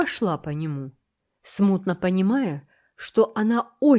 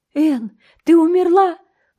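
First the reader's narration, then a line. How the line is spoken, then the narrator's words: Exclaiming. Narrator (Russian): воскликнула Диана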